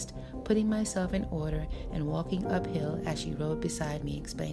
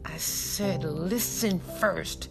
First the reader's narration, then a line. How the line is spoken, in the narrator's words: Chiasa said through clenched teeth